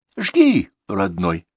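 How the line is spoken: Soft policeman's repeat. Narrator (Russian): мягко повторил участковый

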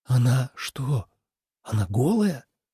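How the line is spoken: Choked breathless. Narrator (Russian): сдавленно выдохнул он

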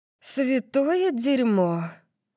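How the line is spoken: Breathed into ear. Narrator (Russian): выдохнула Тори мне в ухо

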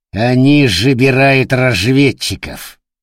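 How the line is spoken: Through gritted teeth. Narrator (Russian): процедил Форн

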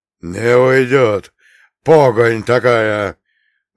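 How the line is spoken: Sudden bark. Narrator (Russian): внезапно рявкнул отец Евлампий

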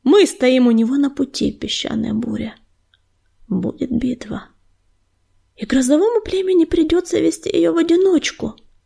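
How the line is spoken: Quiet reply. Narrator (Russian): негромко отозвалась песчаная буря

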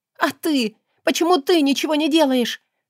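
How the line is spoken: Shouted. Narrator (Russian): закричала

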